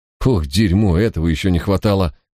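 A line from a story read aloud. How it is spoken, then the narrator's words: Exhaled exclamation. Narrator (Russian): выдохнул мой спутник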